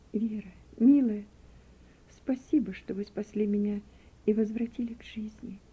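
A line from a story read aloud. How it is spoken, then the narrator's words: Weak, barely audible voice. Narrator (Russian): Слабым голосом, чуть слышно, проговорила она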